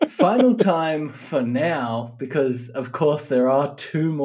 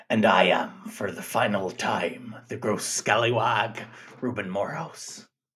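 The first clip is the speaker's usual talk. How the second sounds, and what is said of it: Put-on pirate accent. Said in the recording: “Oh, I'm going to miss that voice. ... you do the accent.”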